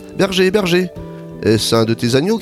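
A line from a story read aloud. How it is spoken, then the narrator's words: Shouted. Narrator (French): cria-t-il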